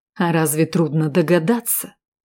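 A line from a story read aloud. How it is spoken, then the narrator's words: Angry hiss. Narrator (Russian): со злостью прошипел Валкер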